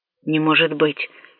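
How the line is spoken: Hoarse mutter. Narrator (Russian): хрипло пробормотал профессор Тедакора

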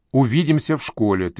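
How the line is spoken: Firm reply. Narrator (Russian): твердым тоном ответила ей Женева

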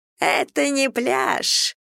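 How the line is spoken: Mocking squeaky voice. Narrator (Russian): издевательским голоском пропищал Брэд

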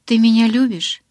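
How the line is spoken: Miserable voice. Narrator (Russian): спросила она тем же разнесчастным голосом

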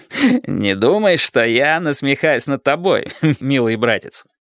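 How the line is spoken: Reply after laughter stops. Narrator (Russian): ответил сэр Дэниел, перестав смеяться

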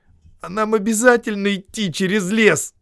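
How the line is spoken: Moaning. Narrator (Russian): простонал Хоббит

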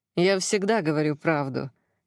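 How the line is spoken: Wry grunt. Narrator (Russian): хмыкнул он

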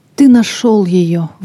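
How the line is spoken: Exclamation. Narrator (Russian): воскликнула Лиза

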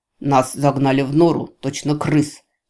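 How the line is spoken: Angry bark. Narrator (Russian): Зло рявкнул лис

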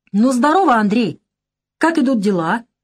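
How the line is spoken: Shouting from afar. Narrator (Russian): крикнул он издали

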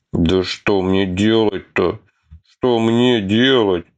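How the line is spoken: Mute helpless whimpering. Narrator (Russian): Немо скулил Атхи, ощущая себя самым бесполезным из всей компании

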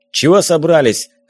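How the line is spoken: Bark. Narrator (Russian): рявкнул он

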